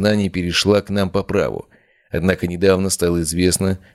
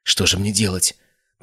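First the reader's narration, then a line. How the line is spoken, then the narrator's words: Whispered. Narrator (Russian): прошептала Ария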